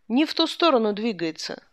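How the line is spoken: Plain. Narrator (Russian): сказал Ландау

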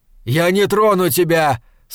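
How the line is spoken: Shouted. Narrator (Russian): снова крикнул он

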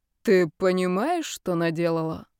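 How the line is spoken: Bored voice. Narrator (Russian): Скучным голосом продолжал Карл

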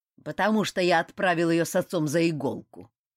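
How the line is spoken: Old woman's grumble. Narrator (Russian): проворчала старуха

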